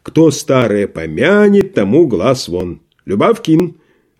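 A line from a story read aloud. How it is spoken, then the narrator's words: Sudden very loud shout. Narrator (Russian): вдруг крикнул он так громко, что все почтальоны посетители вздрогнули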